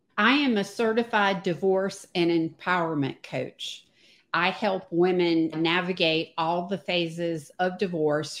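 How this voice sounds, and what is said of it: Virginia/North Carolina Southern accent. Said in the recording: “spent most of my life in Virginia, North Carolina. If you can tell from the accent.”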